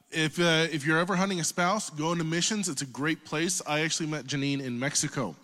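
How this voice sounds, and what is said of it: Oklahoma accent. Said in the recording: “If you can't tell from my accent, I'm not from Montana. I'm from Oklahoma.”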